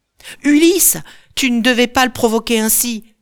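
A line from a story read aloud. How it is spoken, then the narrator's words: Oarsman shouting. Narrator (French): crie l'un des rameurs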